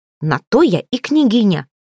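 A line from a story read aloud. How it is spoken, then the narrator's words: Sharp retort. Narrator (Russian): резко отрезала Ольга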